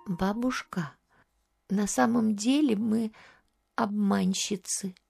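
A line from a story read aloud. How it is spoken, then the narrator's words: Timid answer. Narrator (Russian): Варвара робко ответила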